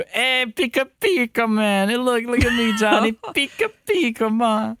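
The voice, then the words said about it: Pikachu cartoon character voice. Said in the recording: “my impression of Pikachu”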